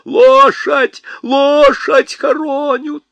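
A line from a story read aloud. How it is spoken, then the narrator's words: Shrill female shouting. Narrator (Russian): какой-то визгливый женский голос выкрикивал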